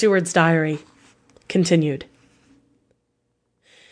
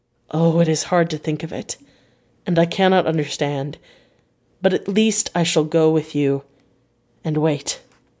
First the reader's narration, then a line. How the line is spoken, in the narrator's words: said in a broken voice